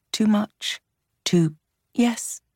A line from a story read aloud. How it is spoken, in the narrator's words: she said softly